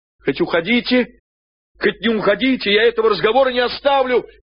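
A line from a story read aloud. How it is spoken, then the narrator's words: Shouted after someone. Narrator (Russian): крикнул ему вслед Петенька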